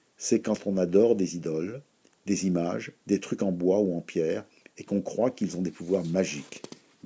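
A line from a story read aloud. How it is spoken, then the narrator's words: Plain. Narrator (French): dit Judith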